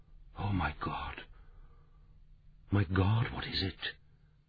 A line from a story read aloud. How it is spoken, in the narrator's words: Maggie Fitzgerald whispered